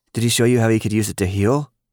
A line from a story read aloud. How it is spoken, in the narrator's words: Lily asked so quickly that she nearly cut off the end of his last sentence